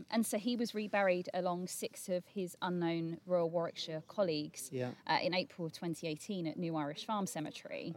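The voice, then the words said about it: South East London accent. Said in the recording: “my South East London accent”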